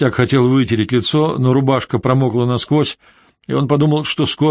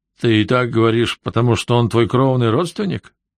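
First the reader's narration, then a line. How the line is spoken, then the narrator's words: Chuckle. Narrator (Russian): Гарсия хохотнул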